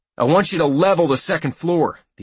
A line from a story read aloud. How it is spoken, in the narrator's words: the assault leader yelled to the Bradley's commander